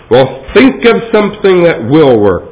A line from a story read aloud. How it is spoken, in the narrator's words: the mayor thundered